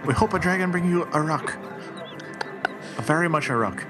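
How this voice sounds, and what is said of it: Poorly done put-on Chinese accent. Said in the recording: “poor Chinese accent. It's not very good”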